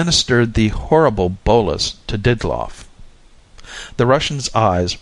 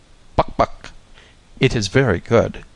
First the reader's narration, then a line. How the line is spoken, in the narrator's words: His Excellency exclaiming